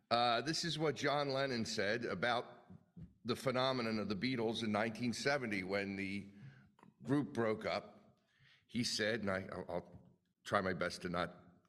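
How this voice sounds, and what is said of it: Philadelphia accent. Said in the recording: “I will say it in my normal Philadelphia accent.”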